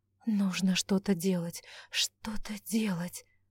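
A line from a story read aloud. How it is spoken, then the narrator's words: Whispered. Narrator (Russian): шептала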